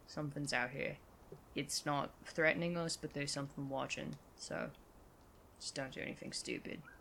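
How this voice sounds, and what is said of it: Lowered, quiet voice. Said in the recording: “I kind of lower my voice”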